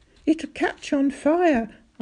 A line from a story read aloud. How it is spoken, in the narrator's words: cried